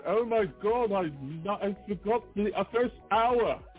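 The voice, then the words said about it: Bad put-on European accent. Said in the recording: “That was my Greg impression ... It's more of his European impression. He's trying to sound like he's from another country, but he sounds terrible.”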